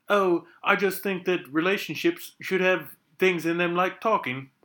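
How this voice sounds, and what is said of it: Put-on British accent. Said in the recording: “that's my British accent. ... That was good.”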